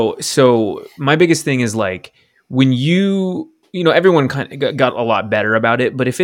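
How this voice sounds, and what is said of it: Usual voice. Nothing is said of it.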